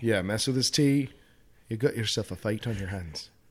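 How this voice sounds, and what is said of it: Put-on Irish accent. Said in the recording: “Even if it's now an Irish accent for no good reason.”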